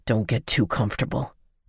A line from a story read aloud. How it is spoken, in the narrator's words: he whispered in a raspy voice